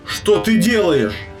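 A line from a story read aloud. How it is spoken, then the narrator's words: Shouted, angel. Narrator (Russian): крикнул ангел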